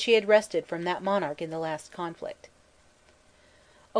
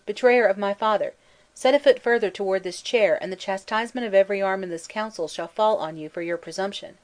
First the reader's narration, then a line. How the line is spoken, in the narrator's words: cried he